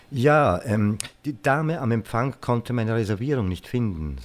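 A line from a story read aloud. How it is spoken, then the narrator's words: Plain. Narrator (German): sagte ich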